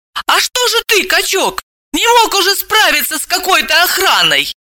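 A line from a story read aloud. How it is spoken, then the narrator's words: Stunned exclamation. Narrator (Russian): Евгений, ошалело тараща глаза, воскликнул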